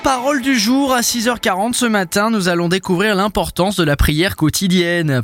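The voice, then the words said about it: Slight put-on Swiss French accent. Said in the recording (French): “je vous l'annonce avec un petit accent suisse”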